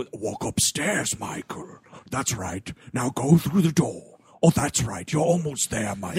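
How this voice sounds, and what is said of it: Scary menacing villain narrator voice. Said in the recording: “This dude's kind of trying to do a Pinhead a little bit ... Oh, yeah, it's very Pinhead ... I keep having to break my scary voice.”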